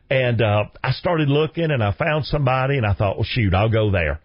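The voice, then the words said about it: Thick regional accent. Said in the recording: “I know my accent is thick”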